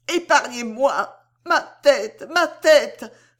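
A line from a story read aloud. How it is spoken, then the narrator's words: Exclaiming. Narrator (French): s'écria-t-elle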